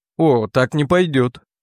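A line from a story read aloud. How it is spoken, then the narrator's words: Plain. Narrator (Russian): сказал он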